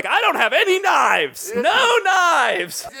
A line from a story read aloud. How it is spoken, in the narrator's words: yelling things like